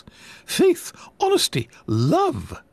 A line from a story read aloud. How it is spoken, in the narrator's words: snapped